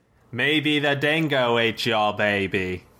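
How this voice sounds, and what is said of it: Put-on Australian accent. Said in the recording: “your best Australian accent ... Not bad.”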